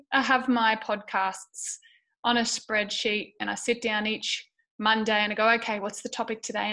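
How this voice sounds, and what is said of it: Strained, partly lost voice. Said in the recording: “As you can hear, like I said, from my voice, I'm going through some stuff at the moment ... my voice is going ... my throat is hurting ... with my voice, I haven't completely lost it”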